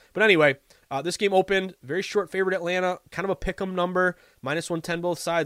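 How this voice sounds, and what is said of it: Sniffly, congested voice. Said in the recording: “I sound terrible. My allergies are killing me ... I sound like a sniffly, like, fourth grader”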